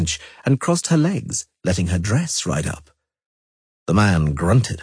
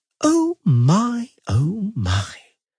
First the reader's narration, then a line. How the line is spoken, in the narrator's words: said Condwirrimuir's sweetly